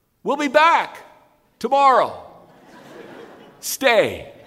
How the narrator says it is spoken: shouted

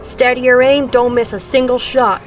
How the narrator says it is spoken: the big man on the jeep roared

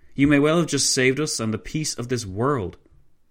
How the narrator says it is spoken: von Leto Vorbeck exclaimed

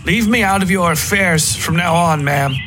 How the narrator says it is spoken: I said loudly

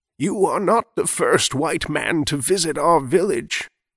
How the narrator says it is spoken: answered, her voice like dry leaves rustling in the wind

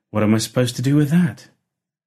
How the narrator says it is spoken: exclaimed

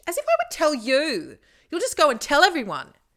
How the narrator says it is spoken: screeched

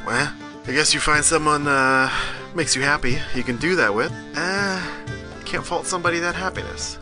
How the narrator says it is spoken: He grunts and kind of half shrugs

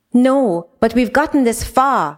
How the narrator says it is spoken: Raya cried

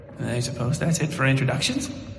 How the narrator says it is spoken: He mumbled to himself

